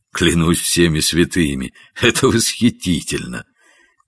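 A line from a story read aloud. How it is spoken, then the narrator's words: Holding back laughter, to himself. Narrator (Russian): Гендон чуть было не расхохотался, но, сдержавшись, сказал себе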